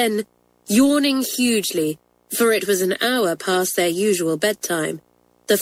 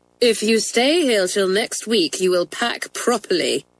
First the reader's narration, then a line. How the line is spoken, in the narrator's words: said Matron grimly